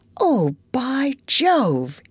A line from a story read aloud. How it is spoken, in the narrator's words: he exclaimed